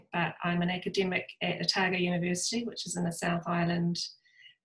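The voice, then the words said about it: New Zealand accent. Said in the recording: “I am obviously a New Zealander, you'll pick that up from my accent”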